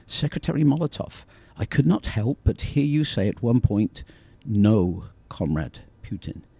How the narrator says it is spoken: The reporter approached Molotov and said, calmly as possible

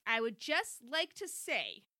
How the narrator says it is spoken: Chrissy said loudly so everyone could hear

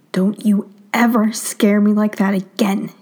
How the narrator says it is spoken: his dad hisses

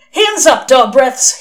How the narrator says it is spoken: he shouted gleefully

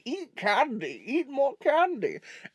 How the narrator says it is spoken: a cackling fat mayor walking around going

